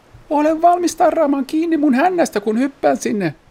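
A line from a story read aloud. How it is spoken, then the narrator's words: Shouted instruction. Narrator (Finnish): Kurre huusi ohjeeksi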